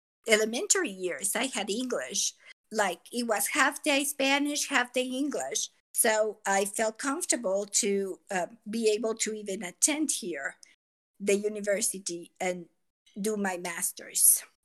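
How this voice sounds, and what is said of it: Non-native English accent. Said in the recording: “my accent, I came too late ... my accent will be with me forever and I'll be an ESL learner always”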